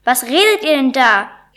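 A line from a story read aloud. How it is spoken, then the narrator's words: Called out. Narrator (German): rief Egobert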